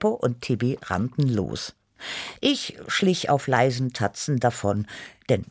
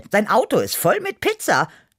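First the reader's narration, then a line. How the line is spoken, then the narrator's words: Quick call. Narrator (German): rief schnell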